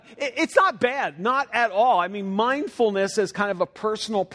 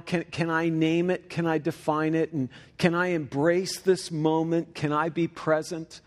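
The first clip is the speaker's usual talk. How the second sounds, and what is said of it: Mocking, sarcastic tone. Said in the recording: “by my tone of voice, you can tell I'm making fun of it”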